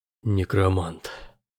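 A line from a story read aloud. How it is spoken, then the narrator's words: Barely audible whisper. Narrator (Russian): сказал Перн едва слышным шепотом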